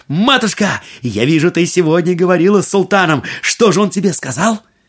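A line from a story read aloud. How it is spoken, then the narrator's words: Exclaimed. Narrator (Russian): Аладдин воскликнул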